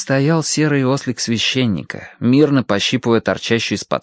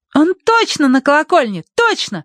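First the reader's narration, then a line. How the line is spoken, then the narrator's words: Exclamation. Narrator (Russian): воскликнула Агнес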